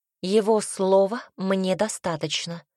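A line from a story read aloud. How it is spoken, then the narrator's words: Plain. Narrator (Russian): ответила Милена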